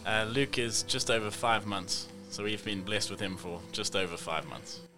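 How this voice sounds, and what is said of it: South African accent. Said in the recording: “What do you think of that accent? I mean, he is from South Africa.”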